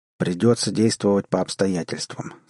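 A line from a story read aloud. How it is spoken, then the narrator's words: Plain. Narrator (Russian): сказал он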